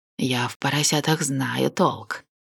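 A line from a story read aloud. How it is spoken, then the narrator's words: Hoarse, spluttering. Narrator (Russian): прохрипел, изрыгая слюни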